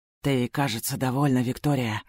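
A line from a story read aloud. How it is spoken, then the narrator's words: Muttering. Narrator (Russian): бормочет Ильрит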